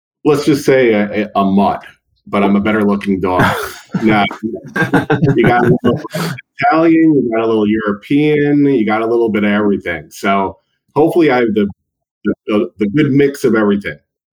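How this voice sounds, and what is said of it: New York accent. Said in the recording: “you are a New York mutt? ... You figured that on the accent? Really? Is that so obvious?”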